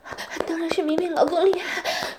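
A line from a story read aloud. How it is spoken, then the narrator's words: Breathy panting. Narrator (Chinese): 王老师娇喘着说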